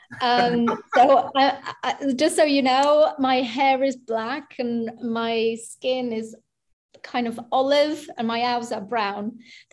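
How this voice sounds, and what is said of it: British accent. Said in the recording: “although I sound British”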